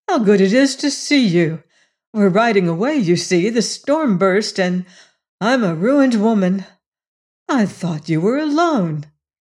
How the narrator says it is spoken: she exclaimed

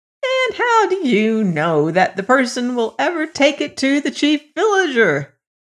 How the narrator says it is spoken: cried his mother

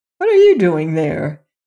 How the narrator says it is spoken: he cried

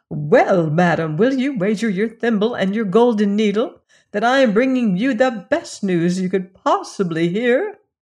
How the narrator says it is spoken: cried

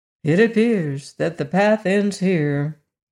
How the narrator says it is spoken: announced the wizard gloomily

